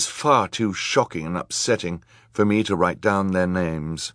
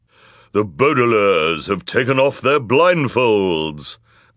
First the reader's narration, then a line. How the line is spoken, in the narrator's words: cried the villainous woman in her low, deep voice